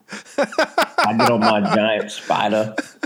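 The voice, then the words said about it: Good put-on Southern Cajun accent. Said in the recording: “You do a really good Southern Cajun accent kind of there”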